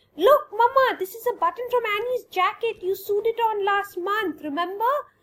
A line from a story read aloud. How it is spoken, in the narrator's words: Tanya exclaimed